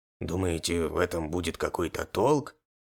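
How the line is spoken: Doubtful. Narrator (Russian): Снова усомнился в моих словах Дархан

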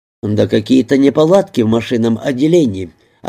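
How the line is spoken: Plain. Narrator (Russian): ответил он

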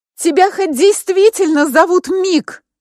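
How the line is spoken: Shouting after someone. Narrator (Russian): крикнула вдогонку

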